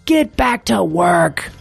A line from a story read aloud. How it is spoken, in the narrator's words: he screamed